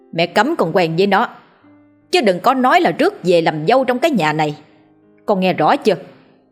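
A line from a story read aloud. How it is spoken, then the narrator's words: Furious mother shouting. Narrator (Vietnamese): Bà Lan trông thấy thái độ của con trai thì lại càng thêm tức giận, bà chỉ tay vào mặt của Phát mà quát lên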